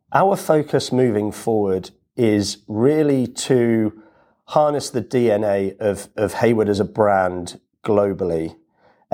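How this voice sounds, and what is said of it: British accent. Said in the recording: “As you can probably tell from my voice, I'm originally from the UK ... it's not a Melbourne accent”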